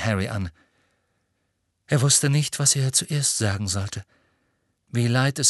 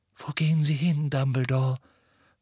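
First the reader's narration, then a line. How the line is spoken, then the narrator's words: Whispered. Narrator (German): flüsterte Professor McGonagall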